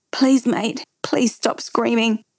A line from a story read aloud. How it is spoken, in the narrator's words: I was almost pleading to Jai